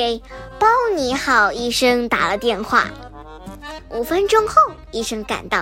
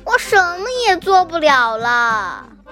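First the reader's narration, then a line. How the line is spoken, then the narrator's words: Crying. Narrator (Chinese): 他哭道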